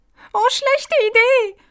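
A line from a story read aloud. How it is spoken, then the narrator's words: Called out. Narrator (German): rief sie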